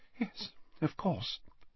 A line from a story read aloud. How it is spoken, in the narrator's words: said Slughorn quietly